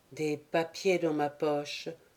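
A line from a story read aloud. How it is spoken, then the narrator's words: Murmur to himself. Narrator (French): murmura-t-il à part lui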